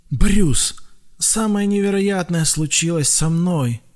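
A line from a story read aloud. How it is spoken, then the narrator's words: Breathed out. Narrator (Russian): выдохнул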